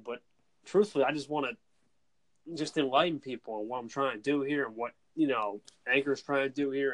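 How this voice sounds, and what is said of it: Noticeable regional American accent. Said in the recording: “this guy has his accent, man. Like, he's from my side of the country. ... I get the Ray Romano thing a lot.”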